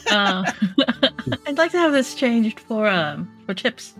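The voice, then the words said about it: Put-on Irish accent. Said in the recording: “that Irish accent.”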